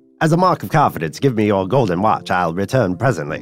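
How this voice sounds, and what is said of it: Put-on transatlantic accent. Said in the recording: “I'm picturing a transatlantic voice. ... No more accents.”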